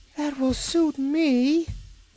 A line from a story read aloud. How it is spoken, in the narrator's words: asserted the Ark with a groan